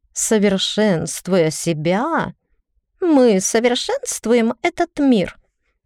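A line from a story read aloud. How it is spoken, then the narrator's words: Finishing with a giggle. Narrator (Russian): закончила Тея и хихикнула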